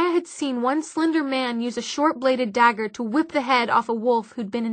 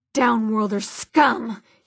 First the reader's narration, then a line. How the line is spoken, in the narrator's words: he spat